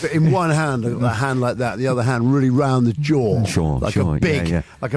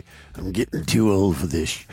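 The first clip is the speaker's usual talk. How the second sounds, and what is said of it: Nick Nolte impression. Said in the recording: “In my Nick Nolte voice.”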